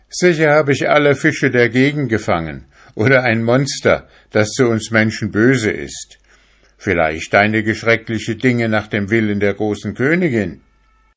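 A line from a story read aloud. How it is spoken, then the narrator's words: Laughing remark. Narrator (German): Er lachte dazu und meinte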